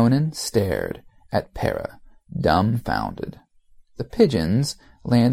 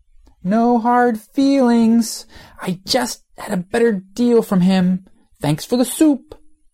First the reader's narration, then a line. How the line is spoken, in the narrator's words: shouted